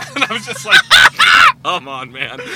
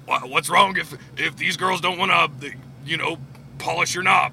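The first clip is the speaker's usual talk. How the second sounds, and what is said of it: Imitates another person's voice. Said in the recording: “my Alex Jones impersonation was that good, but it comes through pretty clear on the headset”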